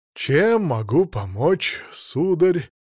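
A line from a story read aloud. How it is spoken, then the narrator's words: Soft, sly old shopkeeper. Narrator (Russian): мягко спросил тучный невысокий старик-продавец с хитрыми глазенками кота, готового изобразить любое ласковое мурлыканье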